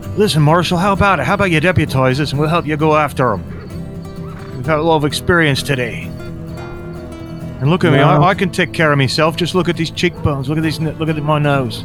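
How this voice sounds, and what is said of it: Inconsistent, shifting character accent. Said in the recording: “My accent's shifting all over the place.”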